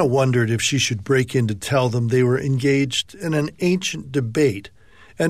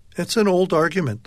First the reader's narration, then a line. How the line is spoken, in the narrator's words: the woman said